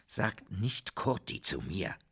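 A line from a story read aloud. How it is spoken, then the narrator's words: Father growling. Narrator (German): knurrte der Vater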